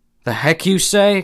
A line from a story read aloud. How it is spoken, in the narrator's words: exclaimed the tall, raw man